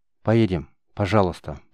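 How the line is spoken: Quiet request. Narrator (Russian): попросила тихонько

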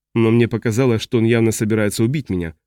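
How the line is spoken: Plain. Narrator (Russian): сказал Джоэнис

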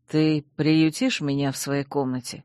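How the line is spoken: Whisper in ear. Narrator (Russian): шепнул Чейз мне на ухо

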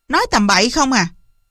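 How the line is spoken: Loud scolding. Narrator (Vietnamese): nạt lớn

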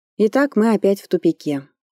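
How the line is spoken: Sad. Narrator (Russian): грустно резюмировала я

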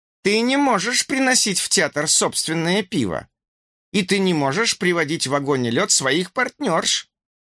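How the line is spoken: Angry woman speaking. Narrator (Russian): Майк сердито посмотрела на меня, на Пенни и сказала

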